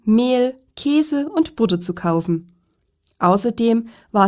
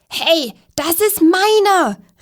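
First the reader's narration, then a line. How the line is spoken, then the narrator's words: Squeaky voice calling. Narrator (German): rief eine quietschige Stimme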